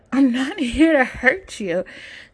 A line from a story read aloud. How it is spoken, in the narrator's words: Chase laughs